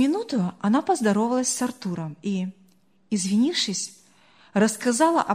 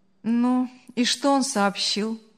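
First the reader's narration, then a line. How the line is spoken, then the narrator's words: Indifferent question. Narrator (Russian): безразличным голосом спросил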